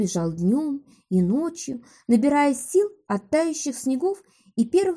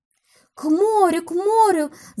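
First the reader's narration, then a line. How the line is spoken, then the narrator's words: Excited murmuring. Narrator (Russian): взволнованно шумели речные струйки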